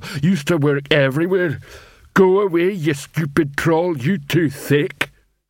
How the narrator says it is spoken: he added gloomily

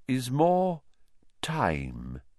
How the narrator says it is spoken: said Dumbledore slowly

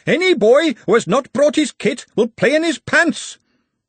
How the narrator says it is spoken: Ponder Stibbons shouting

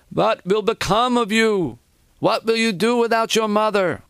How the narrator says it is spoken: One of his aunts, a heavy-set woman, began to wail

